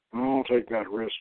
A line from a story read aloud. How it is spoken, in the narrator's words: Shamgar mutters